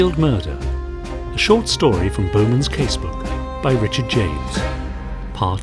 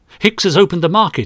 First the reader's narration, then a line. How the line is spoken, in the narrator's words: he yelled